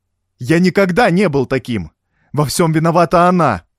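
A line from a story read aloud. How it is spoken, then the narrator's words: Shrill shout. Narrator (Russian): Пронзительно прокричал он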